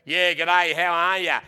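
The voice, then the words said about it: Nasal put-on Australian accent. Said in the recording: “that accent ... It's like through the nostril they say it”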